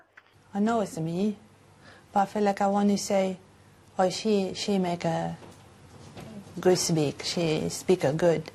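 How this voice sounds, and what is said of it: Chinese-sounding accent. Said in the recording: “Woman develops a Chinese accent from a migraine”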